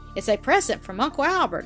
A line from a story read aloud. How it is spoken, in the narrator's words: exclaimed the boy half breathlessly